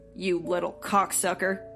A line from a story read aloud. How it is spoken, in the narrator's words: Roger growled